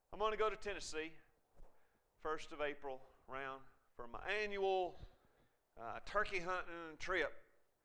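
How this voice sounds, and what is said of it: Tennessee Southern accent, slower talk. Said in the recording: “you can hear my accent, can't you? ... you can't hardly say Tennessee without that coming out ... You start talking a little slower”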